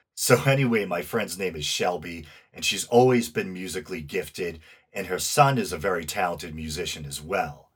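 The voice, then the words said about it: Northeastern US accent. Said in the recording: “as I'm sure you can tell from my accent, I'm in the US, the Northeast to be exact. I'm doing my best to round off my R's.”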